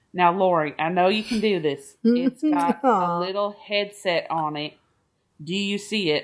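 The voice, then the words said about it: Imitated Southern accent. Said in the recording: “he had a Southern accent.”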